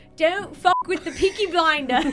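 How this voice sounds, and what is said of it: Put-on Birmingham English accent. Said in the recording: “Can you say it with an accent? ... it takes place in the 1900s in Birmingham, England.”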